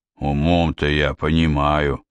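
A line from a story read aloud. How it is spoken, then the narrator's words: Grumbling. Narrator (Russian): проворчал Сварог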